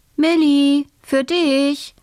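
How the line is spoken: Mother calling. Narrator (German): ruft Mama

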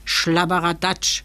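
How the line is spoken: Gruff grumble, little fellow. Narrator (German): brummte das Kerlchen

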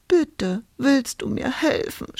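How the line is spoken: Sobbing. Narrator (German): schluchzte Hulda

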